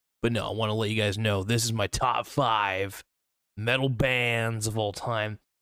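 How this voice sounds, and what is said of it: Valley girl speech. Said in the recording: “I sound like a valley girl 24/7”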